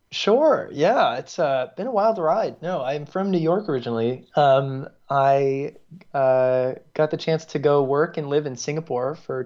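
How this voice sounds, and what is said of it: American accent. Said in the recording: “he's clearly got an American accent.”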